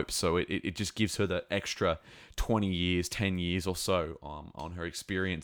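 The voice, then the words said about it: Slightly scratchy voice. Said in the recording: “my voice is a bit scratchy”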